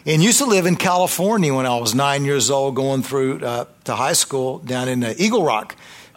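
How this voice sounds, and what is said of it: Slight Tennessee Southern accent. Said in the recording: “a little bit of a Tennessee accent ... It's just that southern thing going on.”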